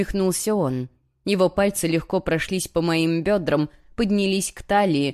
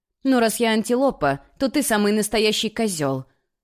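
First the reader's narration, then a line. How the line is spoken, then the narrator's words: Barked. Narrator (Russian): рявкнула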